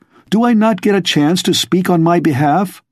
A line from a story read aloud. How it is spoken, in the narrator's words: Darrow cried desperately